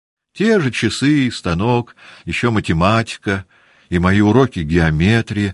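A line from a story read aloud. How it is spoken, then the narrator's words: Joyful. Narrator (Russian): радостно отвечала княжна Марья, как будто ее уроки из геометрии были одним из самых радостных впечатлений ее жизни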